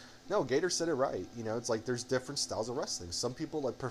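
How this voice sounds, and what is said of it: Usual voice. Nothing is said of it.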